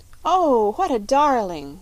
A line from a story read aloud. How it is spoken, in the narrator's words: cried Polly